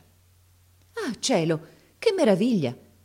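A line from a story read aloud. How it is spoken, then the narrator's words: Exclaiming. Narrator (Italian): esclamò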